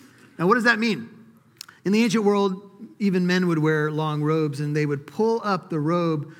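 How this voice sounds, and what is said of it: Usual voice. Nothing is said of it.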